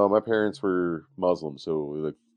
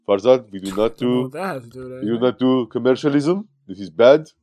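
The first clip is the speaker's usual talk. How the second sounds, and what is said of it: Put-on foreign accent. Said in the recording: “It's okay for him to do the accent.”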